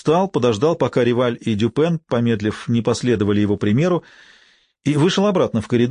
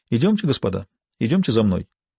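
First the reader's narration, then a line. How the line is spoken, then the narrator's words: Relaxed friendly tone. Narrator (Russian): Бувуа заговорил непринужденным и дружелюбным тоном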